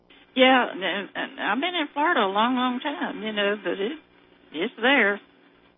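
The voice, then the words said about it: Georgia-tinged Southern American accent. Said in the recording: “you have a lovely Southern accent... there are certain pronunciations that don't go with some Southern accents that do go with others... your folks came out of Georgia... you can hear that in your voice”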